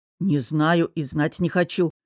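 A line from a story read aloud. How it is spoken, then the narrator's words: Growling. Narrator (Russian): прорычал Костя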